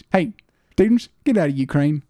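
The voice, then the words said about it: Imitates another person's voice. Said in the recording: “That is an impression of our old high school principal.”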